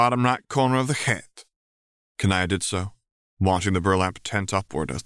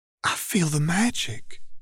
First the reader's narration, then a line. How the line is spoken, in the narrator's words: she whispered